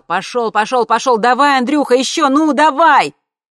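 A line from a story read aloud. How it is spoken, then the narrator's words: Shouting over engines. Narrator (Russian): папа, заглушая вой обоих двигателей, закричал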